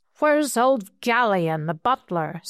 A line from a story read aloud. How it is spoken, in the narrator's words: said one